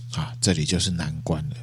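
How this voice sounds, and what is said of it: Quiet, hushed voice. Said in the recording (Chinese): “小声的讲到说”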